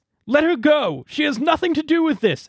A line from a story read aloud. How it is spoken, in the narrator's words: Elwyn cried